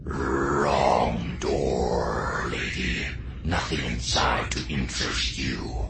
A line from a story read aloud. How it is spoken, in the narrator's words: rasped